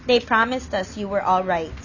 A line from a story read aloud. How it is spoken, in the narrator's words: he said